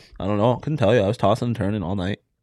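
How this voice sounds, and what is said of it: Canadian-sounding accent. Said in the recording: “you sounded so Canadian there ... Why do you just slip into Canadian fits? ... You sounded so Canadian ... That's spot on Canadian”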